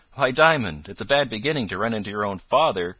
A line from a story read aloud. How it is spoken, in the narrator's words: cried the driver